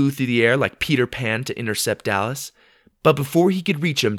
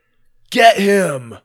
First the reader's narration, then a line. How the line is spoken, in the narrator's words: Dallas cried